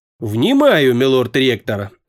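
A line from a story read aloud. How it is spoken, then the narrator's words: Trying to sound firm. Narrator (Russian): ответил Фес по возможности твердым голосом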